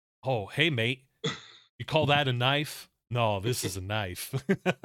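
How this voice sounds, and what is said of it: Poor Australian Crocodile Dundee impression. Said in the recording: “worst Crocodile Dundee impersonation ever”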